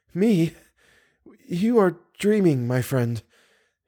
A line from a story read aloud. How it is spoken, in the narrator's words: In her trembling voice, she said